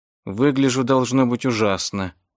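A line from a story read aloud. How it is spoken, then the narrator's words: Muttered. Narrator (Russian): пробормотала она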